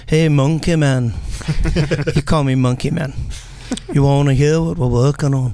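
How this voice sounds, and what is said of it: Liverpudlian accent impression. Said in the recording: “Terrible Liverpudlian accent. ... Pretty good, actually. ... Really good.”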